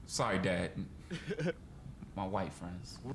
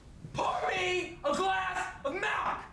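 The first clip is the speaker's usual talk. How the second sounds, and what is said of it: Yelling loudly. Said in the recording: “Why are you yelling at me?”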